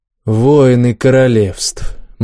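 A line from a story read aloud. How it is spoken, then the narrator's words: Gloomy reply. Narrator (Russian): мрачно ответил Макс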